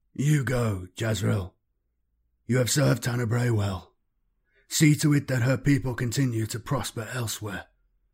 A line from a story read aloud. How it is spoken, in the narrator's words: he said in a tired but kindly voice